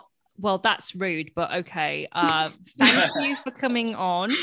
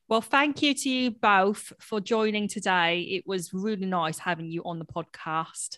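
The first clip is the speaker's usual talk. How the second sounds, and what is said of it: Put-on Kent accent, sounds Australian. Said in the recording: “I'm trying to do your kind of like Kent accent ... You sound like you could be like an Australian.”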